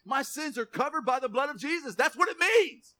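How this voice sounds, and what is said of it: Excited yelling preacher. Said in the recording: “Why am I yelling? ... I do get excited about this stuff.”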